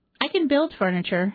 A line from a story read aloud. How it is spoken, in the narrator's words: she said